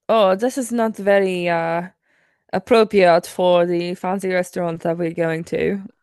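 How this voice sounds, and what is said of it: Poor put-on French accent. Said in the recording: “My French accent sucks.”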